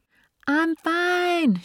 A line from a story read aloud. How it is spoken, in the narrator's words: she shouted back